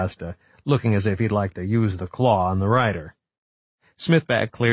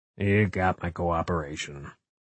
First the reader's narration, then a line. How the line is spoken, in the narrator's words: he said in a low voice, his jaw working stiffly